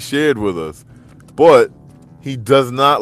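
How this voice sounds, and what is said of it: Usual voice. Nothing is said of it.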